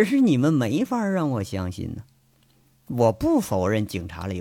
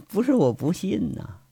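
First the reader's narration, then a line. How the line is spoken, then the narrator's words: Smiling. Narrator (Chinese): 卜离笑着说了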